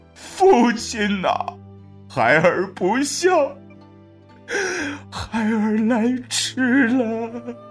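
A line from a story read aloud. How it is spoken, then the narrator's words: Wailing in grief. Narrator (Chinese): 不由得是抱尸痛哭啊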